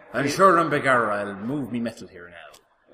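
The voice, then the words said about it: Fassbender's Magneto, exaggerated Kerry Irish accent. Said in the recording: “I don't remember Magneto coming from Kerry. That accent does more globetrotting than the plot... It does not wander down to the southwest coast of Ireland.”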